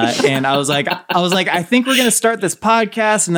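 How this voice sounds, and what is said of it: Usual voice. Nothing is said of it.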